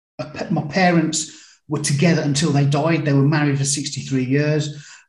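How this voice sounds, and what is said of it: Birmingham, UK English accent. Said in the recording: “I was brought up in Birmingham, UK, not Alabama ... the accent gives it away a bit”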